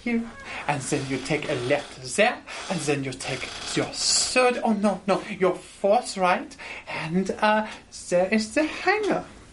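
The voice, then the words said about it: Put-on French accent turning German. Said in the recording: “Slowly becoming less French and more German. ... The accent. ... whenever I hear hangar, it sounds German. ... Also, the S is ... becoming.”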